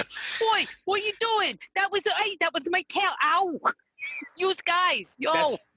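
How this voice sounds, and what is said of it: Cartoon cat voice, pseudo Brooklyn accent. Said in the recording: “the proper pseudo Brooklyn accent ... the talking Meowth ... That's pretty close.”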